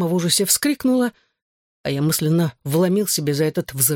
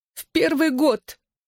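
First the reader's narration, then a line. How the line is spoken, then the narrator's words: Sobbing. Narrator (Russian): всхлипывая произнесла она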